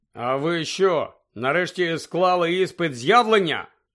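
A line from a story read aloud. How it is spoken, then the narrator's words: Angry grumble. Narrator (Ukrainian): сердито буркнув Гаррі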